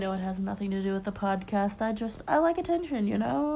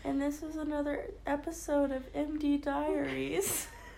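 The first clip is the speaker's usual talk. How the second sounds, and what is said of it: Sad-sounding voice. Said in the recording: “Why do you sound so sad?”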